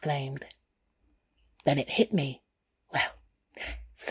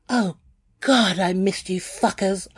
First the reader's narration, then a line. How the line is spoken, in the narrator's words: I cried